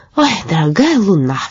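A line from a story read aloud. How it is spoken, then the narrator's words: Sigh. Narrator (Russian): вздохнул Каспер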